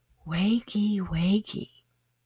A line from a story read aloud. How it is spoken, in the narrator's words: She whispered